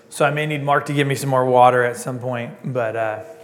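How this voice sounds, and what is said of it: Strained, hoarse, fading voice. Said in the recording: “losing my voice a little bit this morning ... That's not my voice”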